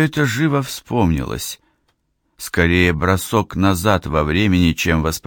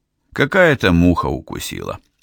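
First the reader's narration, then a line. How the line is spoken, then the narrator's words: Calm. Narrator (Russian): спокойно сказал он наконец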